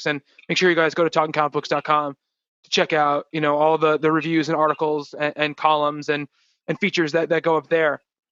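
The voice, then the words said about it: Slightly hoarse, strained voice. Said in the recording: “losing my voice a little bit”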